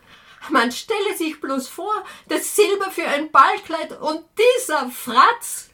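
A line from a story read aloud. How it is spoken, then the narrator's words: Shouted. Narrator (German): schrie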